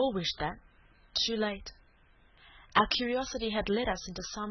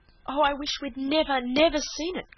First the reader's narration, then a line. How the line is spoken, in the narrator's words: cried Cecily